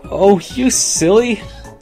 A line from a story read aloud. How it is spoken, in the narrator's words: She giggled